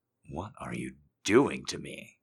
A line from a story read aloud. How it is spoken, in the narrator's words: He moans